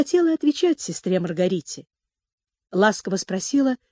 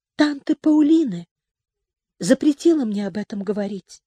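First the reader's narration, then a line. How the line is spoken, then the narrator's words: Timid continuation. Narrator (Russian): робко продолжала Джен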